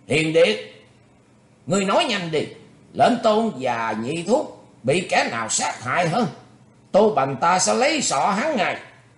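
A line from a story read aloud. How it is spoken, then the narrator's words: Fierce, furious shout. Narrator (Vietnamese): Thiết Đảm Bá Dương hùng hổ, quát lên dữ tợn, nói vàng vàng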